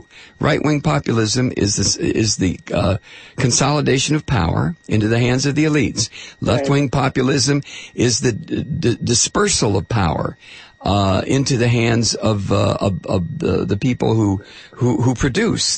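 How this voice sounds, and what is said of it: Strained, fading voice. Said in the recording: “I'm losing my voice again.”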